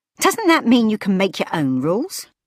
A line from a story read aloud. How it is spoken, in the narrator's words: Cassiel chuckled again